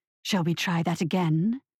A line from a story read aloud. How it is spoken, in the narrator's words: she hissed into his face